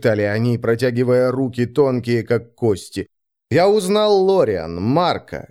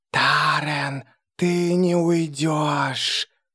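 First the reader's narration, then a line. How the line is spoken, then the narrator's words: Hissed by several. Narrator (Russian): Шипели они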